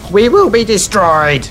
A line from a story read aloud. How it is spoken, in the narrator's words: She screamed through foam-flecked lips